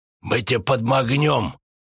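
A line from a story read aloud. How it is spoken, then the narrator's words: Hissed. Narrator (Russian): Прошипел Дылда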